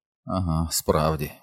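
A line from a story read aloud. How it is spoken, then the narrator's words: Grumble. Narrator (Ukrainian): буркнув Ричард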